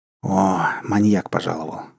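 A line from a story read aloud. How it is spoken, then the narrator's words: Sighing. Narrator (Russian): вздохнул гость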